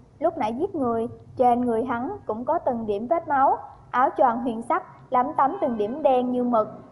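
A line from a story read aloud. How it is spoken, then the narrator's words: Smiling. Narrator (Vietnamese): Chữ Thiệu Lăng mỉm cười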